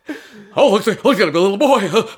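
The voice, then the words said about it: Robin Williams impression. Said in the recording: “this is my Robin Williams impression”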